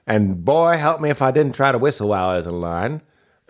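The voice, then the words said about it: Put-on character accent. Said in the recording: “This accent has been like three different things in the course of its lifetime.”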